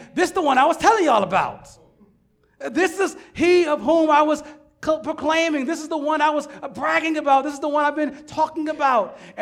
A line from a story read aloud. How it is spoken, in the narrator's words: John exclaims